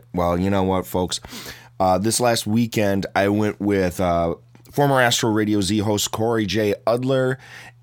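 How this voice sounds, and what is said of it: Hoarse, badly strained voice. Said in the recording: “my voice is completely and utterly trashed ... you've lost your voice ... sound like shit”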